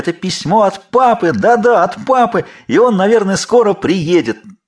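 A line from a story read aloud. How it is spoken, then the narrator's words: Shouting together. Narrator (Russian): Тогда они закричали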